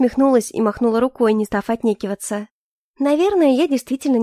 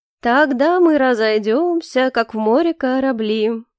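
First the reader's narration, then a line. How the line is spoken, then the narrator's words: Singsong, then laughing. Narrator (Russian): нараспев произнесла Маргарита и рассмеялась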